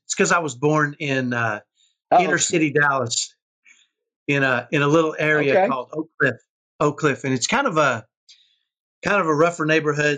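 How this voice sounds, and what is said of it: Texas inner-city Dallas accent. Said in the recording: “you'll probably hear what I call a Texas ghetto accent”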